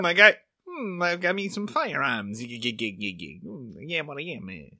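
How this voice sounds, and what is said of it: Popeye cartoon character voice. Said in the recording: “Do you want to do a couple more Popeye impressions? ... it sounds like you're doing a Popeye impression, like, over my shoulder, directly into my ear”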